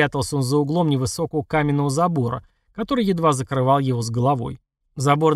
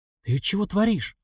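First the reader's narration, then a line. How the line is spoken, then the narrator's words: Whisper from behind. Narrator (Russian): раздался шепот со спины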